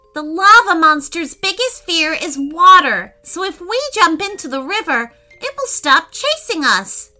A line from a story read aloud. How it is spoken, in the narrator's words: shouted Declan while running